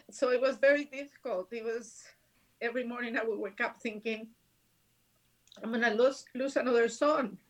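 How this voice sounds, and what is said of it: Emotional voice breaking. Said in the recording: “my voice is breaking”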